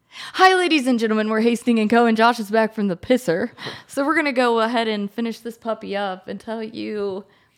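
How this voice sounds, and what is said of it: Put-on radio announcer voice. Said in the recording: “That was your radio voice sucks. I know. Your talking radio voice sucks.”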